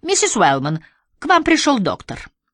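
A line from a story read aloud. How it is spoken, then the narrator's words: Brisk cheerful announcement. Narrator (Russian): О'Брайен бодрым голосом объявила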